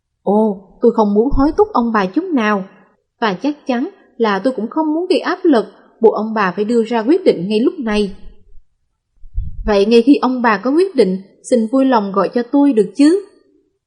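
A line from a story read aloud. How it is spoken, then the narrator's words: Smiling. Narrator (Vietnamese): mỉm cười với họ và nói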